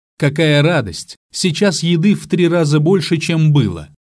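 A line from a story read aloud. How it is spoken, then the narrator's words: Exclaimed. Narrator (Russian): Она воскликнула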